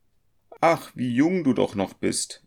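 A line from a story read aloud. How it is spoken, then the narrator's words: Female call. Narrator (German): rief sie beim Anblick des zarten Jungen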